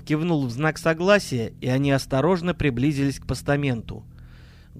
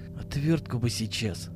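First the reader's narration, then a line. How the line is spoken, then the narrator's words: Wistful mutter. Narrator (Russian): тоскливо пробормотал Миша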